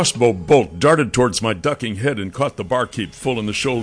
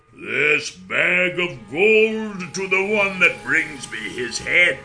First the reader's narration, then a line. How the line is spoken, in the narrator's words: His voice was loud and raspy said